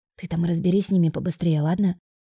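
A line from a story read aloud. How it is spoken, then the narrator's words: Whisper in ear. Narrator (Russian): шепнула я на ухо соседке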